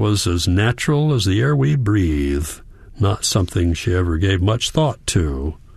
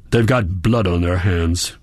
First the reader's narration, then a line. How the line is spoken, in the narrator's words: snapped